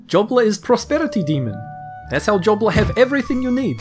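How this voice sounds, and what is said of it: Put-on character accent. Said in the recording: “accent offensive? ... This is how everybody speaks in Jobla's realm”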